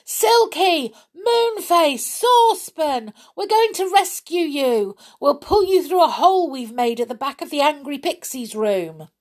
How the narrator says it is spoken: yelled loudly

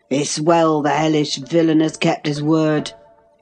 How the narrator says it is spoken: growled my future host

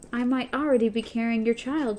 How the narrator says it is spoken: she said

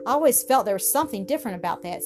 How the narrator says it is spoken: said Hetty eagerly

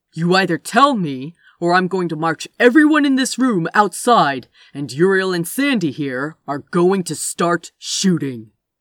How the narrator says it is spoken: Gabriel snarled

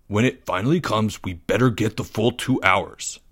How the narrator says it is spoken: he grumbled

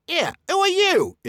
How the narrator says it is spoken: It squeaked as it left the pocket

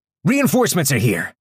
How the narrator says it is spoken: shouted, this time vocally

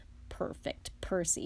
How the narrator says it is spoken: muttered Fred

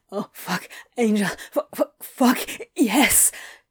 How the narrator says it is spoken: he gasped

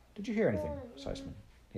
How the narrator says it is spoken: he asked

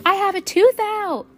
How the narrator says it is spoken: Sal shouted

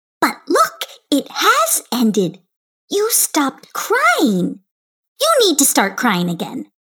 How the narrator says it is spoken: called out

